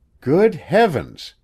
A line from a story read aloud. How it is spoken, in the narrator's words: he exclaimed